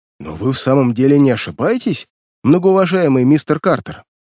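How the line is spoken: Horrified exclamation. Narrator (Russian): В ужасе воскликнул он

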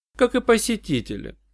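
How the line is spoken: Dry remark. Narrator (Russian): сухо заметила Джанна

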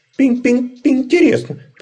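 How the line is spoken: Tiny squeaky voice. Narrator (Russian): пропищал пуховый комочек

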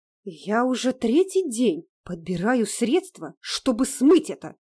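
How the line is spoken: Disgusted, through gritted teeth. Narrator (Russian): брезгливо процедила она сквозь зубы

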